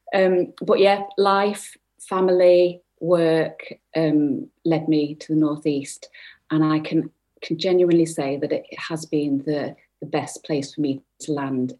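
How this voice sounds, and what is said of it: Northern English Manchester accent. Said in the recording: “I'm actually a Manc at heart ... I'm a Northern lass by attitude and accent, as you might tell.”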